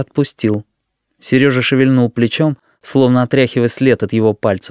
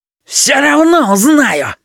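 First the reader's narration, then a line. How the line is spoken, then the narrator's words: Sudden shrill scream. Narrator (Russian): вдруг визгливо закричал Петя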